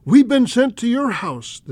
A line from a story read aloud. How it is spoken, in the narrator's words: Marjorie Meritz and Shirley Howes, missionary teacher and nurse, with a shout saying